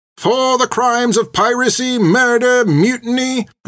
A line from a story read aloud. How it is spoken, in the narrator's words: the soldier pronounced each crime